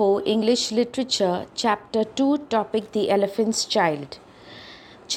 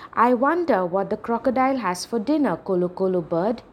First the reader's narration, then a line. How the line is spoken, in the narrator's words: he asked